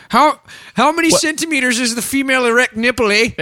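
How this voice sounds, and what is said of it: Put-on Canadian accent. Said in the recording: “We've never done a Canadian accent. ... Is this what Canadians sound like?”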